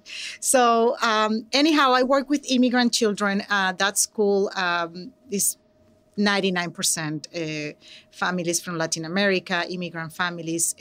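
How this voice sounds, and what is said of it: Venezuelan Spanish accent in English. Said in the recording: “I'm from Venezuela, so I'm an immigrant and an English language learner ... my accent ... I love my accent.”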